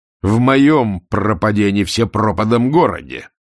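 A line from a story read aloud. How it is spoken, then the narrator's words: Bark. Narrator (Russian): рявкнул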